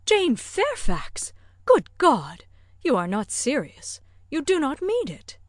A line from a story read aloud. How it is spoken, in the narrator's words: Emma with surprise horror-struck exclaimed